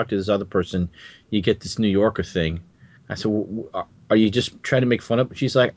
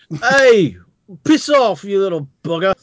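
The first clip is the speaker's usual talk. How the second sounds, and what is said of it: Put-on Eliza Doolittle Cockney accent. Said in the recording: “Suddenly, my mother's Eliza Doolittle.”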